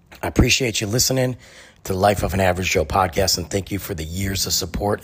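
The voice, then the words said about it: Voice going hoarse, fading. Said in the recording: “I'm losing my voice.”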